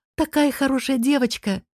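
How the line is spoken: Joyful exclamation. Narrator (Russian): радостно восклицает Вика

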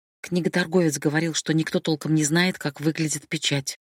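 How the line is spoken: Muttered. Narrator (Russian): пробормотала Хадия

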